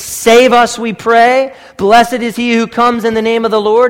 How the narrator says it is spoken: They shouted

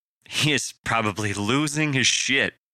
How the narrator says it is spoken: Parker suggested with a chuckle

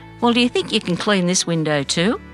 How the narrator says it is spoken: I laughed out loud

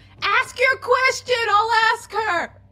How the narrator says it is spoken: I yell at Ozem

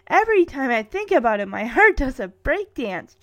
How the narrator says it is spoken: Cherry exclaims

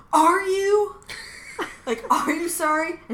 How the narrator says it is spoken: Jack screams out at her

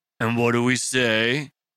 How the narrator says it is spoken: Tank said over a self-satisfied sneer

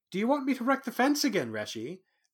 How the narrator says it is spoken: Bast said eagerly

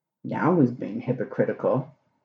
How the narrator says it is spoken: Crowley muttered into his glass

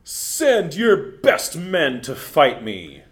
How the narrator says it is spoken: the Philistine champion, Giant Goliath, bellow

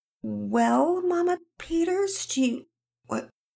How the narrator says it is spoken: Penelope began weakly

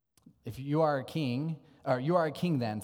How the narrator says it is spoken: said Pilate

